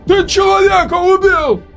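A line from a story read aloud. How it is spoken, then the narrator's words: Frightened shouting. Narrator (Russian): кричал испуганный Роук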